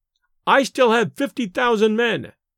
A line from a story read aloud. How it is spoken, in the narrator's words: she said it so loudly